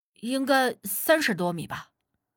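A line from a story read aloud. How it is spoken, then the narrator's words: Plain answer. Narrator (Chinese): 小贾回答道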